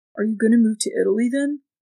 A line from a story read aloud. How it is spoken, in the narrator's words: Nyx sighed